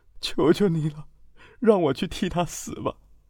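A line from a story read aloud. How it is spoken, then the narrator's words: Crying plea. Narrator (Chinese): 哭着说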